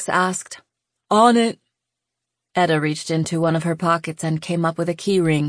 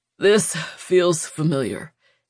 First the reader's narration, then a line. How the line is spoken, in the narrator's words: he panted